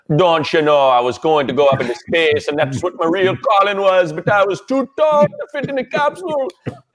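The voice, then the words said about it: Bad Bahamian accent with Irish tinge. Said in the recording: “A bit of Irish going on in your Bahamian... it was terrible. It was a horrible accent.”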